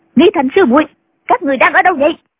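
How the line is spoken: Shouted. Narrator (Vietnamese): Nghi quà lại quát

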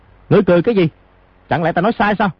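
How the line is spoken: Angry. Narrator (Vietnamese): lão lục tức giận nói

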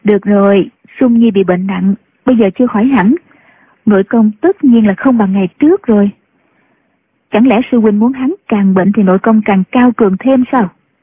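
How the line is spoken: Smiling. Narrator (Vietnamese): Nhạc Phu Nhân mỉm cười nói

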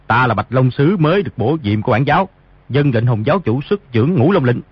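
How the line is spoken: Lowered voice. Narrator (Vietnamese): hạ giọng nói

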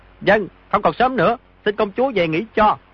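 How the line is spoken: Raised voice. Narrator (Vietnamese): Di Tiểu Bảo cao giọng nói

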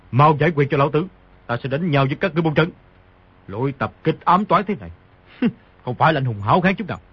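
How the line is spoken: Angry. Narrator (Vietnamese): Sấu Đầu Đà tức giận nói

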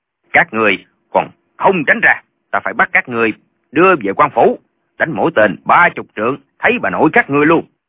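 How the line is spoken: Shout. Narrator (Vietnamese): quát

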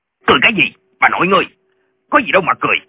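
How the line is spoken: Shout. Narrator (Vietnamese): Viên quan lại quát lên

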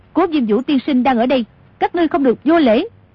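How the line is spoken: Loud calling voice. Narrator (Vietnamese): Tô Thuyền cao giọng gọi

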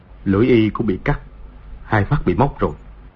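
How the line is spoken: Softly spoken. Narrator (Vietnamese): Từ Thiên Xuyên khẽ nói

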